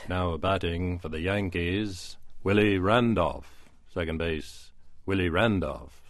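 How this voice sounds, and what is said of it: Bob Shepard stadium announcer impression. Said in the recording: “my Bob Shepard imitation ... It's about as good as I can do it.”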